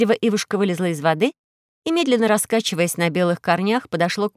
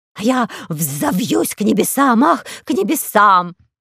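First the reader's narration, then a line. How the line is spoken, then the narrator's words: Laughing eagle exclamation. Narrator (Russian): воскликнул орел-хохотуша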